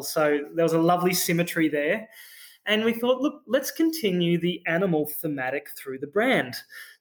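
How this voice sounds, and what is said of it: Australian accent. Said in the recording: “You can probably hear in my accent, I'm an Australian founder”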